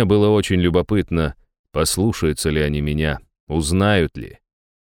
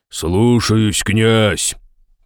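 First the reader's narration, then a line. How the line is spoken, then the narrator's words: Deep male voice. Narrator (Russian): пробасил мужчина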